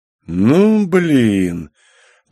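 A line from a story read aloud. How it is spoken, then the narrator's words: Drawn-out drawl. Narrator (Russian): протянул я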